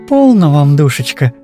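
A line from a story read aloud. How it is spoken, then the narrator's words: Affectionate. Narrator (Russian): проговорила она ласково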